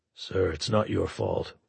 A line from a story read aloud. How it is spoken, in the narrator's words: Waldeck said quietly